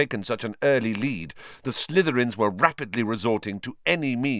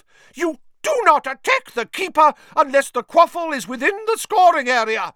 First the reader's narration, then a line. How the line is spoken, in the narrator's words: she shrieked at Bowl and Derek